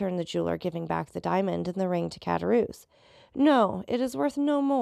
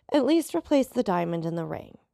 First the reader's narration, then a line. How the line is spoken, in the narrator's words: said Le Carconte sharply